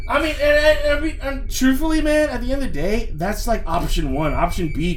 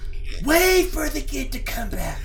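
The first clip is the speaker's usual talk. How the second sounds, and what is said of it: Whisper-yelling. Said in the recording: “I'm whisper yelling.”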